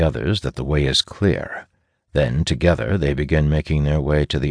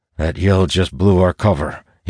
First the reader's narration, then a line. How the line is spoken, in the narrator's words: he growls